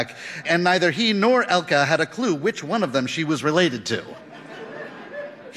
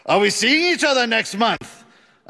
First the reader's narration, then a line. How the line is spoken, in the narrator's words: a man asked loudly